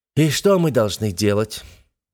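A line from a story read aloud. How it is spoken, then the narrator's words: Heavy weary exhale. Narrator (Russian): выдохнул, как навьюченный стирх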